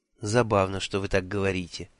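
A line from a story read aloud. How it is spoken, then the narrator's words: Soft interruption. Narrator (Russian): мягко перебила она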